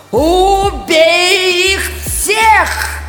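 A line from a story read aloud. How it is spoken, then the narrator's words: Shouted. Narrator (Russian): закричала Света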